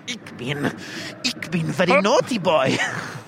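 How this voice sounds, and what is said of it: Put-on German accent. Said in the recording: “to do a German impression ... my go-to impression, Dad's Army ... like someone like Nazi officer”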